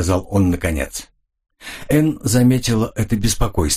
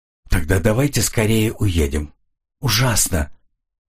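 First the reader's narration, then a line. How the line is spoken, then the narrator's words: Faltering, soft cry. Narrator (Russian): Она запнулась, тихо вскрикнув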